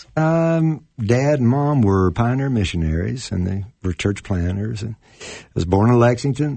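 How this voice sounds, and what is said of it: Regional Kentucky accent. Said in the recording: “you're not from around here ... We have some accents ... And we sound funny.”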